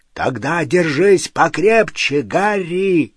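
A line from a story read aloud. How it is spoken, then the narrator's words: Deafening hoarse roar. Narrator (Russian): Раздался оглушительный, хриплый рев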